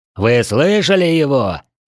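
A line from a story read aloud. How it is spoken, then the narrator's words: Barked. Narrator (Russian): рявкнул он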